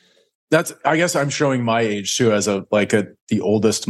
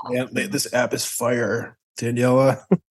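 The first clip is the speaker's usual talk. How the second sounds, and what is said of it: Impression of a Gen Z user. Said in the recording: “That's my impression of a Gen Z user of Landa. ... No, that's spot on.”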